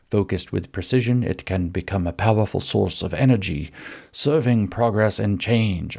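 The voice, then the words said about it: British accent like Emperor Palpatine. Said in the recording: “I gave Audre Lorde a British accent, ... I wanted it to sound like Emperor Palpatine”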